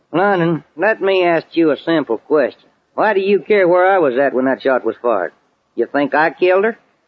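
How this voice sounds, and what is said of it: Texan accent. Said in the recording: “that accent ... I just talk the way folks talk in Texas ... That's Texas talk”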